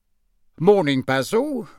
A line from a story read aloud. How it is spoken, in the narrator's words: said Mr